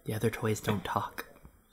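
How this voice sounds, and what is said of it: Condescending character voice. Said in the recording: “said in a condescending voice ... not just me being sassy”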